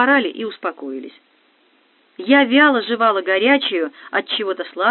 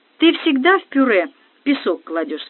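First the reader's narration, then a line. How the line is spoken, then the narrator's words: Plain question. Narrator (Russian): спросила Тина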